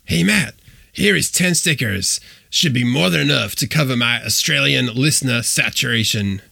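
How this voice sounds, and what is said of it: Bad impression of Mike Gutterman. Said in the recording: “I'll read it out to you in Mike Gutterman voice ... here's my extremely bad imitation of Mike Gutterman”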